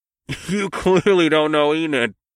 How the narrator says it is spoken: Jay laughed

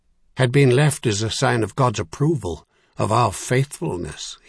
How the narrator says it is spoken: he snorted harshly

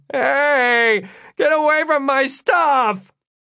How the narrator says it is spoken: Todd shouted

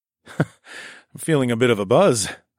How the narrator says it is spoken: laughed

